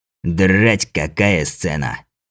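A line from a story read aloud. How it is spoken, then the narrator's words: Hoarse laugh. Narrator (Russian): хрипло рассмеялся лепрекон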